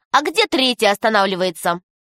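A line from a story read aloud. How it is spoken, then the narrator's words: Thin-voiced uncontrollable laughter. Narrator (Russian): Засмеялся тонким голоском и не мог остановиться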